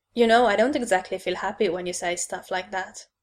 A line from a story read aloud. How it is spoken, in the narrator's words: I said dryly